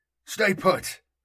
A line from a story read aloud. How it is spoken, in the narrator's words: snapped